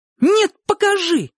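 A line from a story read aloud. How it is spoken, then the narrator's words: Shouted. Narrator (Russian): крикнула Ника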